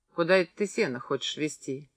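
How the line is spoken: Quiet question. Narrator (Russian): тихо спросил Большаков

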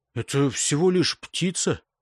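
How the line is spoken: Grumbled. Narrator (Russian): буркнул Эйнор

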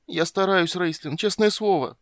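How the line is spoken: Whimpering. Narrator (Russian): прохныкал Тассельхоф

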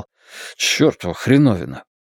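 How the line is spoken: Muttering. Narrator (Russian): Стью пробормотал

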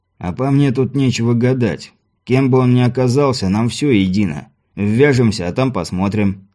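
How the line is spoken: Completely calm. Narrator (Russian): совершенно спокойно произнес Мартин

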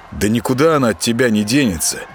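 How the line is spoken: Annoyed grumble. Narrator (Russian): с досадой проворчал он

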